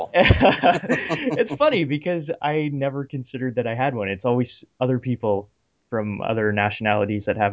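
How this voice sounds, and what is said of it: Canadian accent. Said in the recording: “I guess I do have a Canadian accent”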